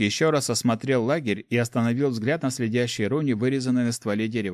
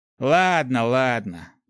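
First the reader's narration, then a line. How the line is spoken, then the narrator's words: Resigned sigh. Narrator (Russian): вздохнул напарник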